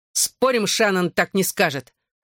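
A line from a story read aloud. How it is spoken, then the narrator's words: Snapping retort. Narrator (Russian): огрызнулся Ронан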